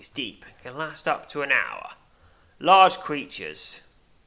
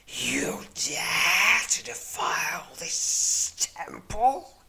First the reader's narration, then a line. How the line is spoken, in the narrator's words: hisses the wicked creature